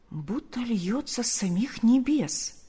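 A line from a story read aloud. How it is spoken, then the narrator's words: Very quiet, secretive. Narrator (Russian): произносит Марфа так тихо, чтобы не услышал муж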